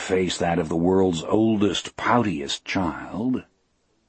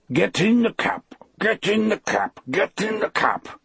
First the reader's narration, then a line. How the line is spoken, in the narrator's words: Toot said, and now his voice sounded squeezed as well as muffled